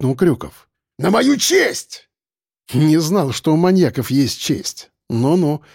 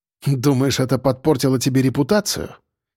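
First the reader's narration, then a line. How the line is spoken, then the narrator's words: Snorting. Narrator (Russian): хмыкнул Сальников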